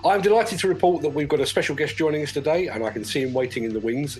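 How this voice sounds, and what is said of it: Deep voice, congested. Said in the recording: “a very, very sexy deep voice because I've got a cold.”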